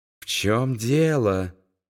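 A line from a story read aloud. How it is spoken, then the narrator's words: Quiet question. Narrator (Russian): тихо спросил Вилли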